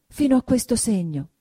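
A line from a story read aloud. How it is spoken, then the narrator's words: Flustered trembling exclamation. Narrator (Italian): esclamò, arrossendo e tremando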